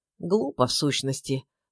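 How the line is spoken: Muttering. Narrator (Russian): пробормотал Киреев, свесив голову

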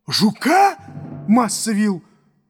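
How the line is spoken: Frightened shout. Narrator (Russian): закричал Юпитер, отшатываясь в испуге

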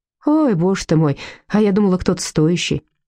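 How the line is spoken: Sighing. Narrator (Russian): вздохнула Людмила

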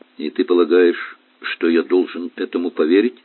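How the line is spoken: Dry question. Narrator (Russian): сухо спросил отец

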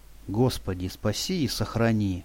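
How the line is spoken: Someone's whisper. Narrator (Russian): послышался чей-то шепот

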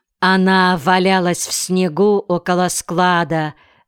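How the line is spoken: Plain. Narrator (Russian): сказал Калькерхин

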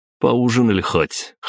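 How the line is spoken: Snorting. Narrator (Russian): хмыкнул я

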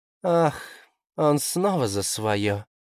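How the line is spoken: Sighing. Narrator (Russian): вздохнула лисица

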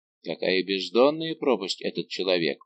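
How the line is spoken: Whispered, king speaking. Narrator (Russian): прошептал король

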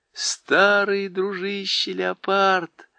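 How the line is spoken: Happy mutter. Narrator (Russian): радостно пробормотала

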